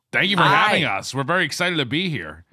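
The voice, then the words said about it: Imitates another person's voice. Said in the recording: “doing a Nick Weiger impression”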